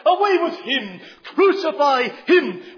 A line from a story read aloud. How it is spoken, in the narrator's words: the crowd that cried